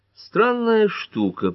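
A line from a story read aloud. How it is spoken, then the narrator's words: Mumbling. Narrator (Russian): пробормотал Эллири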